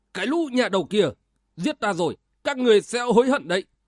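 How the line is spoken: Loud yell. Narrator (Vietnamese): Sử Vô Luân hét toáng lên

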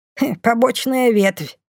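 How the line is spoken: Snort. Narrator (Russian): фыркнула Бумба

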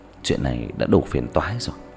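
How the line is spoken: Pensive muttering. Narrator (Vietnamese): Diệp Thiếu Dương nhíu mày trầm ngâm lẩm bẩm

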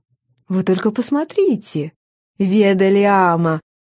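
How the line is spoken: Polite society tone. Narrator (Russian): Светским тоном обратилась к своей спутнице Клариса

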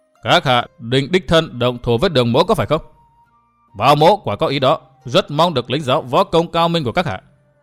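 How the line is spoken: Scoffing interruption. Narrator (Vietnamese): Đường Hán cười khẩy ngắt lời

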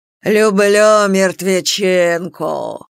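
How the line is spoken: Good-natured monster drawl. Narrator (Russian): Благодушно скались, протянуло чудище

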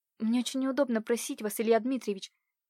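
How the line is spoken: Timid babbling. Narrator (Russian): пролепетала Катюша

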